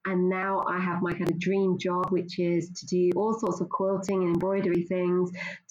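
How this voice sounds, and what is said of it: Pleasant non-Scottish accent. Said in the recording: “you may not have a Scottish accent, but you do have a very good accent.”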